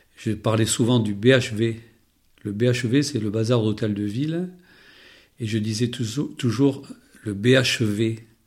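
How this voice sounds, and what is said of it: Béarnais southwestern French accent. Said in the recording (French): “Mon accent, je l'ai toujours gardé ... cet accent béarnais”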